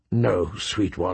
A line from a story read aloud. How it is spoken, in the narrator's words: he murmured